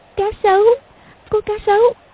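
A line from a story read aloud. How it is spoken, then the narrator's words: Trembling, frightened. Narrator (Vietnamese): Công Tôn Lục Ngạc run rẩy nói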